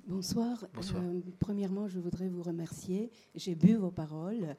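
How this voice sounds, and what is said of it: Slight Romanian accent in French. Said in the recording (French): “comme vous l'entendez sans doute. J'ai un petit accent... d'où vient votre petit accent. Mais oui, je suis née à Bucarest.”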